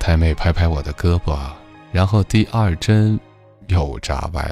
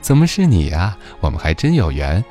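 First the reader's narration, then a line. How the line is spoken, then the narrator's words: Laughing, delighted. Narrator (Chinese): 他笑着说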